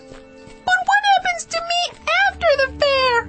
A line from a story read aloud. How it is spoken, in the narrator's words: I shouted